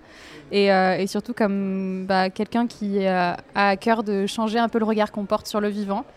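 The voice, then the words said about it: Slight southern French accent. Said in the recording (French): “je me définis surtout comme une fille du Sud. Donc ça, déjà, ça introduit sur le petit accent qu'on va peut-être entendre”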